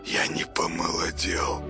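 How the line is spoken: Muttered. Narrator (Russian): пробормотал он

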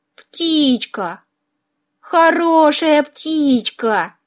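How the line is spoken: Tender purring. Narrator (Russian): Нежно промурлыкала я

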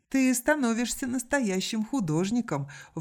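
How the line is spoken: Laughing. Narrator (Russian): вновь рассмеялась Ок

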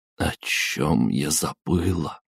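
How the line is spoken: Desperate whisper. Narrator (Russian): прошептала она в отчаянии

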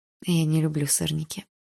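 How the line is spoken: Quiet. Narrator (Russian): тихо сказала я

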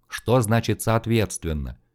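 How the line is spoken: Hopeless muttering. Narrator (Russian): Безнадежно пробормотал Карнаев, даже, собственно, никому конкретно в этот момент и не обращаясь

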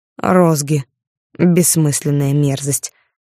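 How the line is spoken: Scoffing. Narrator (Russian): хмыкнул он

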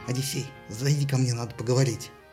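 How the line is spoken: Whisper in strange voice. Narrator (Russian): Тиндарей ... шепнул не своим голосом

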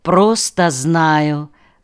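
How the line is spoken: Calm reply. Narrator (Russian): спокойно ответила Нау

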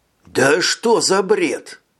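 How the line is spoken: Hoarse rasp. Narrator (Russian): прохрипел он

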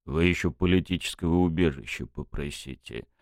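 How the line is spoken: Grumbling. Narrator (Russian): проворчал капитан

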